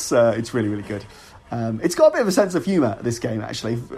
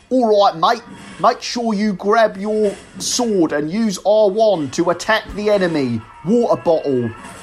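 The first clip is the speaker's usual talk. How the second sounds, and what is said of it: Exaggerated bad English accent. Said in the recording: “it has maybe the worst English accent I've ever heard, like to the point where I don't even think it's an accident”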